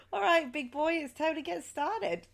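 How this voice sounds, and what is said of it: Attempted Australian accent. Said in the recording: “was that your Australian accent? ... is that your Australian accent? ... It's a work in progress”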